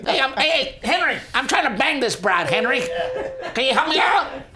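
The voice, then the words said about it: Poor imitation of another person's voice. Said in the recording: “terrible Joe Pesci impression ... It got worse. It got progressively worse.”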